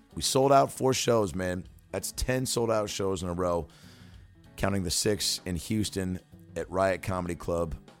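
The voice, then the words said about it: Hoarse, worn-out voice. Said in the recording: “My voice is a little shot because I've been doing shows all weekend.”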